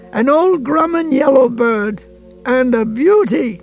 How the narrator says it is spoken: cried

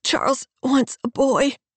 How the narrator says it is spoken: she pants

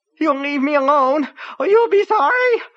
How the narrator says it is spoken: screamed in her high, fainting helium voice

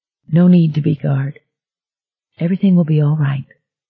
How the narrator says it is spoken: In that same tender voice, Bobby said

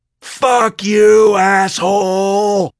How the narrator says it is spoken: She screamed

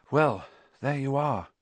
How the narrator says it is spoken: Harry said quietly

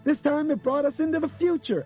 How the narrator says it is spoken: Albert cried

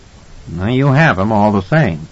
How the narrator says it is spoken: Edmund said dryly

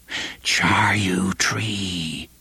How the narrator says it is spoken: they whispered

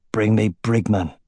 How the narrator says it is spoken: croaked

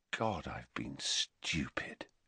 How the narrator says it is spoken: he said quietly

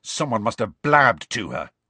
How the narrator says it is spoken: Ron said angrily

